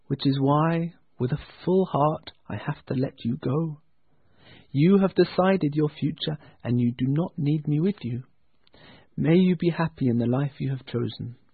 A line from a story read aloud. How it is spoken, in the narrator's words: answered gently